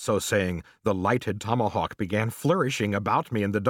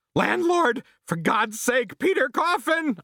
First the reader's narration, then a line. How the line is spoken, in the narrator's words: I shouted